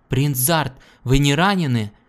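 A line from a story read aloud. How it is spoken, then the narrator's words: Man shouting. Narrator (Russian): крикнул Гордону их предводитель, высокий черноволосый мужчина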